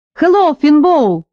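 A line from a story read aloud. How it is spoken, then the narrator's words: Loud shout. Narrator (Russian): громко выкрикнул он, хотя мы остановились в двух шагах от него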